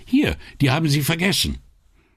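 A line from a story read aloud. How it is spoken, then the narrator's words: Called after someone. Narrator (German): rief ihr nach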